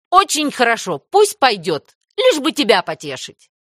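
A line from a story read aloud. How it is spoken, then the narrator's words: Sharp. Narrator (Russian): резко сказала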